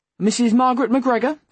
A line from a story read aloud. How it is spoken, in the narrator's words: a nurse finally called out from outside the room